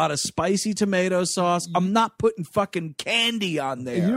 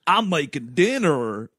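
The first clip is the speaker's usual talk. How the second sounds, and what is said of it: Dumb put-on kid voice. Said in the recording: “That dumb voice I just did”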